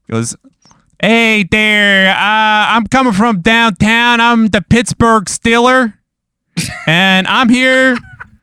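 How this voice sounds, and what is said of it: Exaggerated Pittsburgh accent. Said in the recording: “He has the worst Pittsburgh accent that you've ever heard in your life.”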